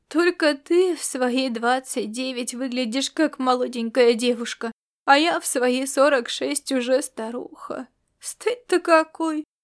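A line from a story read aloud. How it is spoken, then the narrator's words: Choked sob. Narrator (Russian): она сдавленно всхлипнула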